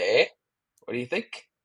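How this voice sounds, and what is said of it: Put-on Canadian accent. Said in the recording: “how's that accent, bud? How's that? We were we were practicing accents on our trip.”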